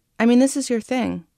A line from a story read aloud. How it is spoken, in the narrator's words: she said